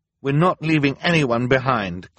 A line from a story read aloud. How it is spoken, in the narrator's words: Klaus said firmly